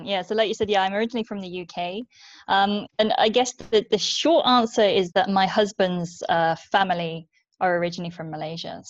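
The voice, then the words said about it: British English accent. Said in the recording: “she's from the UK, as you can kind of hear from her accent”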